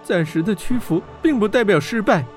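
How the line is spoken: Sighing. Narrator (Chinese): 温莎叹口气道

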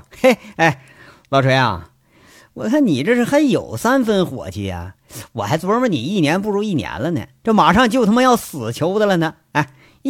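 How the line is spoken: Helpless hearty laughter. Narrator (Chinese): 杨伟笑的是前仰后合，笑半天才说

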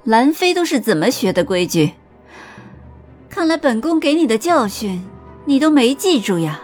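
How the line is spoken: Smiling. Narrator (Chinese): 尹宁鹤笑着说道

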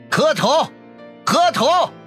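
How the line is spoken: Shouting. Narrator (Chinese): 那个箭头男在人群中喊道

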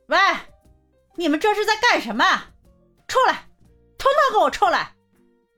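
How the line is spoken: Shouting. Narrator (Chinese): 她冲着小区方向喊道

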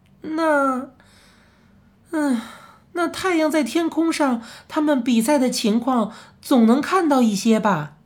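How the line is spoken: Old man, sighing. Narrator (Chinese): 怪老头摇摇头，叹口气说

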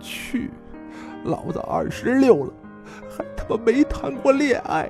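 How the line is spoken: Crying. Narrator (Chinese): 大宽哭着说

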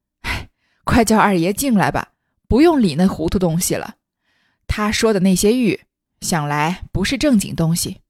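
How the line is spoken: Group laughing. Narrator (Chinese): 大家笑起来，说

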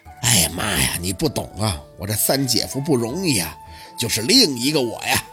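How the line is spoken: Chuckling then sighing. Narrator (Chinese): 小六呵呵了一阵，叹气

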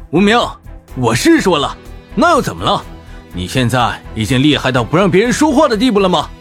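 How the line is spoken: Cold laugh. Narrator (Chinese): 我忍不住笑了起来，但是眼中却冰冷无比

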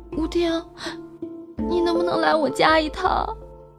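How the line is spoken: Soft, melting voice. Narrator (Chinese): 这声音让我全身都变得酥软

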